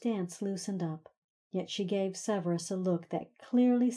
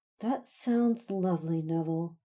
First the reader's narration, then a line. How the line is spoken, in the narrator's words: said through her teeth